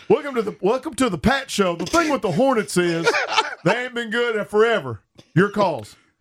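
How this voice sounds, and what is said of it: Mock local radio host, North Carolina accent. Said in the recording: “that's a North Carolina accent.”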